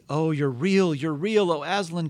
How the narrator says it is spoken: cried Lucy

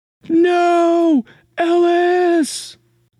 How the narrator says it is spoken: Holly's voice, yelling out

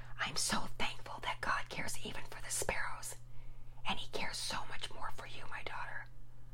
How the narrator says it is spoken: Mama Peters quietly whispered in her ear

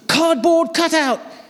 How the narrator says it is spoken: he shouted

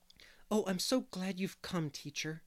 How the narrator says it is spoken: he said eagerly

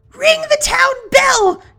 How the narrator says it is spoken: Elsa cried

